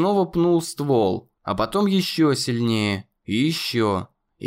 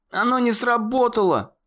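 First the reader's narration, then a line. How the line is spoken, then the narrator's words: Shouted. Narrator (Russian): Закричал Коннор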